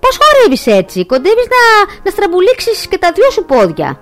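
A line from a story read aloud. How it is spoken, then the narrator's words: Mocking. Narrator (Greek): την κορόιδεψε ο Πολ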